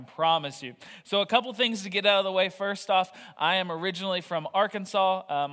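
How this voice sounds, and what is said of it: Southern American accent. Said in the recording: “you're going to hear a lot more accent than I would like to say ... The more tired I get, the more southern my accent gets”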